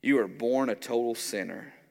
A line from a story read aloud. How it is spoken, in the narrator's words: answered